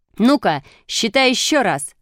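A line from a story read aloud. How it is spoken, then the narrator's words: Shouting. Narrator (Russian): закричал Шишкин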